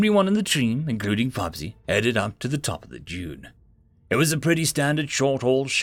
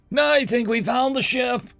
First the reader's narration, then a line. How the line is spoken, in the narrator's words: Nate yelled at them from the top of the dunes